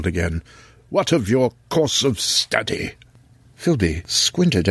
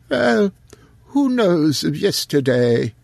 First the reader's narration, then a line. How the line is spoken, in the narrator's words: he wheezed